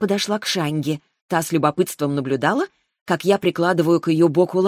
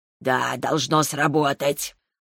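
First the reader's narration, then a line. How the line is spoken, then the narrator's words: Grumbling. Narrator (Russian): пробурчала Шаньга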